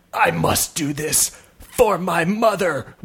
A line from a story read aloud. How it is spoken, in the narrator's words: whispered the younger Viking